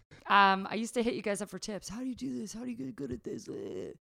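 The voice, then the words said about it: Imitates own younger self's voice. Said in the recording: “That's my impression of me 9 years ago... Yeah, she nailed it. That was her.”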